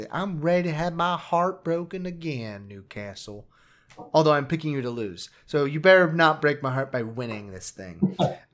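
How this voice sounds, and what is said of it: Put-on American southern accent. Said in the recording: “everything's going to a southern accent in this episode”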